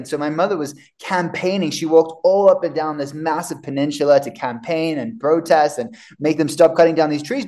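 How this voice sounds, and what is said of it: Mixed accent with Australian traces. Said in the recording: “I know my accent's all over the place. That's originally where I'm from, is Australia”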